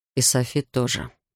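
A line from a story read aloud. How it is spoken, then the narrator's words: Mumbling. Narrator (Russian): пробормотал он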